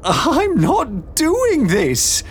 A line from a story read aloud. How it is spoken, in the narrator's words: Beatrix cried